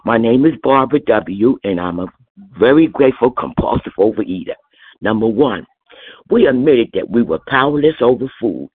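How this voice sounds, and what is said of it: Stuffy, congested voice. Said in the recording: “I have a cold.”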